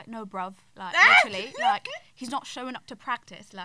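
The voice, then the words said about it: Imitated South London accent. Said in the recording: “he speaks like a South Londoner ... he has such a strong British accent”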